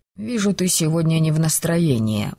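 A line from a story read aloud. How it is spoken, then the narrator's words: Sigh. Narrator (Russian): вздохнул он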